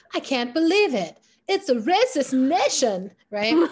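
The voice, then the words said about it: Jimmy Fallon impression. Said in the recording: “Jimmy Fallon.”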